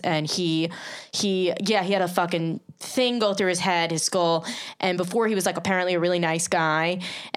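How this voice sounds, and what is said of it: Long Island accent. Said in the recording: “my Long Island accent echo nice back out”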